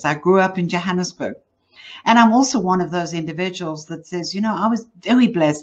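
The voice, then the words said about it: South African accent. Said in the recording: “I'm from South Africa. So if you're wondering where the accent from, that's what it is.”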